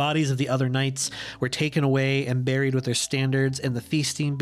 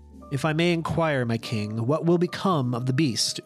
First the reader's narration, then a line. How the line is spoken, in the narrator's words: Uther asked